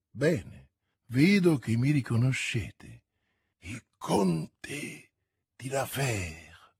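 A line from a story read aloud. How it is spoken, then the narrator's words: Pale murmur, backing away. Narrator (Italian): mormorò Milady impallidendo e indietreggiando fino a toccare il muro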